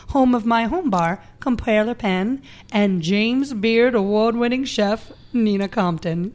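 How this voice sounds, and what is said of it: Southern American accent. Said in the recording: “When'd you get a southern accent?”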